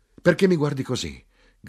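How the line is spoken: Shouted. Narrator (Italian): gridai

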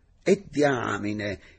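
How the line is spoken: Sudden astonished exclamation. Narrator (Italian): esclamò a un tratto stupito

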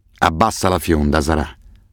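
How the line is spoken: Hissed. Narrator (Italian): sibilò Assef

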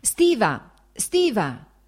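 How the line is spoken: Shout. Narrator (Italian): gridò il fratello

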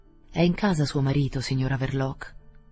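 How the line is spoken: Resonant, casual question. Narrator (Italian): chiese con tono sonoro, disinvolto

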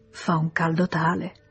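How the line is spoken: Sighing. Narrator (Italian): Léon sospirò

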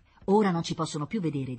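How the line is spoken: Plain. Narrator (Italian): disse Paolo

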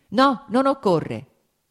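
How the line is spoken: Shouted again. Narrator (Italian): gridò subito di nuovo

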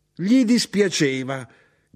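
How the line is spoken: Shouted. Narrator (Italian): gridò mia madre

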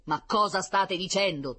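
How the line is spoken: General's booming voice. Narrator (Italian): tuonò il generale

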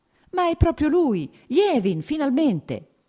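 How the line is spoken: Warm, teasing exclamation. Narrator (Italian): esclamò con un sorriso cordialmente canzonatorio

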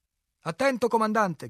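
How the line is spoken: Shouting. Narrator (Italian): gridò

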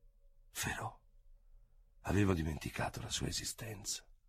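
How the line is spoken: Involuntary murmur. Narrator (Italian): Involontariamente mormorò

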